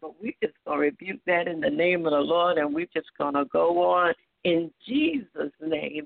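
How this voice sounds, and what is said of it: Slightly raspy voice. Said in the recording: “my voice sounds a little raspy... I guess it's a little allergies coming on”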